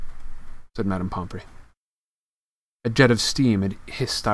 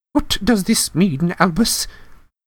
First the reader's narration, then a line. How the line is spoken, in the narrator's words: Professor McGonagall asked urgently